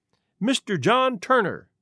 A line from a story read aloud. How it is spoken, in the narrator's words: he cried